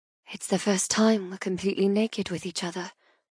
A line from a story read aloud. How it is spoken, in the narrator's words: I whisper